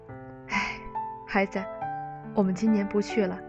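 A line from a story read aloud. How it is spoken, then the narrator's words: Sighing, low voice. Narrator (Chinese): 叹了一口气，低声对他说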